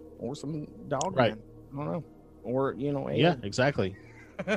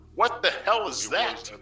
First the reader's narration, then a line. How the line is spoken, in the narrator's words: I yelled